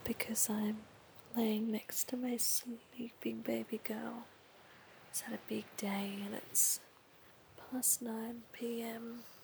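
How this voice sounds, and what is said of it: Soft whispered speech. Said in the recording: “I'm in a bit of a whisper”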